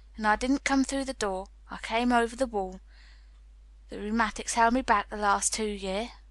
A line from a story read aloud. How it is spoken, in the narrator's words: said Ben dryly